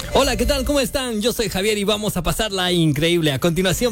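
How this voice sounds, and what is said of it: Radio announcer voice. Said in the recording (Spanish): “con esa voz de locutora... Dale un ejemplo, pero cortito.”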